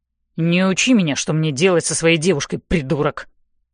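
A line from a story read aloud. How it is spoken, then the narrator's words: Angry snapping. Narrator (Russian): сердито огрызается Ной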